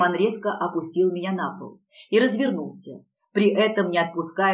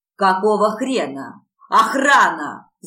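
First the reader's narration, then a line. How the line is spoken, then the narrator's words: Roaring. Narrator (Russian): взревел Ариман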